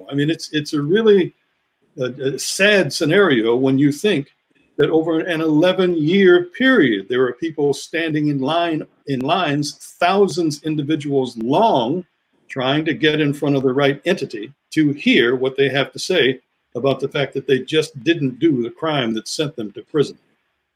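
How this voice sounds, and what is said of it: Frustrated voice. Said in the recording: “I guess you can hear the frustration in my voice”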